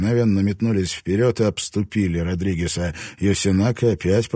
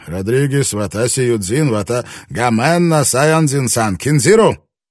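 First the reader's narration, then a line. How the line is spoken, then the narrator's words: Commanding shout. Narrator (Russian): Йосинака крикнул что-то повелительное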